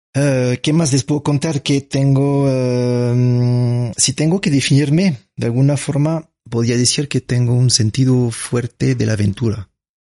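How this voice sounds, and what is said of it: French accent. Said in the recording (Spanish): “lindo acento romántico ... nací en Francia”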